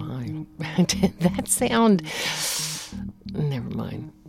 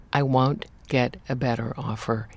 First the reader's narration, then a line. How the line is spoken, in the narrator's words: he said firmly